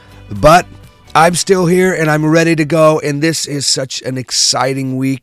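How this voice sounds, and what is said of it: Hoarse, strained voice. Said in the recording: “I have totally lost my voice over the past couple of days”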